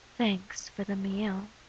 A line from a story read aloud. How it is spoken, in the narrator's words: she whispers